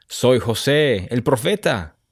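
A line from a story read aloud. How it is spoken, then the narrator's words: Man exclaiming. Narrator (Spanish): exclamó el hombre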